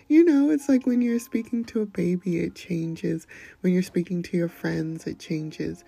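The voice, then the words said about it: Gentle, slow, soft sweet voice. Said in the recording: “speak so gently ... I put a little extra honey in it ... I don't usually operate on this level of timbre and slowness ... a softer, sweeter side”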